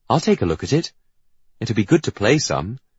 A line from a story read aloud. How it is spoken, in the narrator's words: Percy, bless him, says kindly